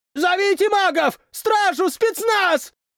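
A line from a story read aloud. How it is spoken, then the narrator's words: Shouted. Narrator (Russian): прокричал кто-то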